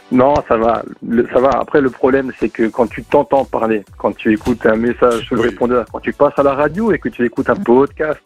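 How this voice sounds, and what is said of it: Slight Alsatian French accent. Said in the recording (French): “c'est notre accent ... tu l'as un tout petit peu ... tu es capable de l'activer cet accent ... je me force un tout petit peu”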